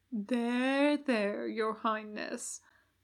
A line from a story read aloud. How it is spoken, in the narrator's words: Huster murmured